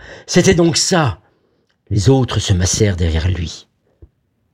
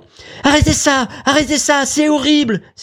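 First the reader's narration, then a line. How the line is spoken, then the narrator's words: Exclaiming. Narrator (French): s'écria Vera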